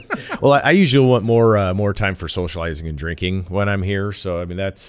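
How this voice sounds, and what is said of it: Deep, polished radio announcer voice. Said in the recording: “you put us to shame with the radio voice ... here comes like Johnny Bass”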